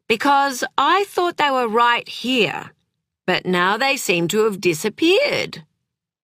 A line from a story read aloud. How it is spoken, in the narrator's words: he said loudly